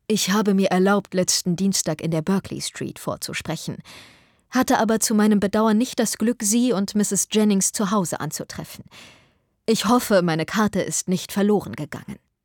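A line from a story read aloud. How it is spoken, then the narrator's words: Calm, after brief silence. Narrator (German): Nach kurzem Schweigen sagte er ruhig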